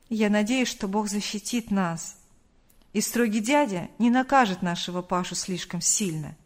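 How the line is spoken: Sighing father's reply. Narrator (Russian): вздохнув, ответил отец

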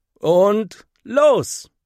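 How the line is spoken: Calling out. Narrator (German): ruft Henry

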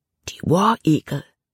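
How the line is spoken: Whispered. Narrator (German): flüsterte Jordan

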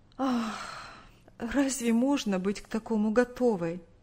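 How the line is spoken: Sighing mother. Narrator (Russian): Вздохнув, ответила мать

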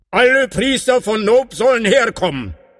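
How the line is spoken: Called out. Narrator (German): rief er

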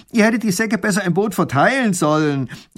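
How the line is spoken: Shout. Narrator (German): ruft der Räuber, als er es merkt

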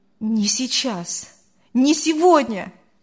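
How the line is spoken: Exclaiming. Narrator (Russian): воскликнул Артур

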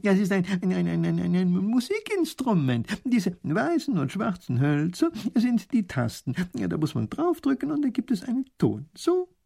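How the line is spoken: Professor laughing. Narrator (German): lacht der Professor

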